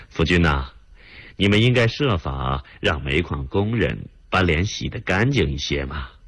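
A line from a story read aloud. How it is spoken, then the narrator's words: Joking. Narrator (Chinese): 副总理开着玩笑的对田福军说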